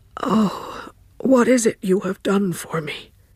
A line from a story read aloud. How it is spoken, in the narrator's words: groaned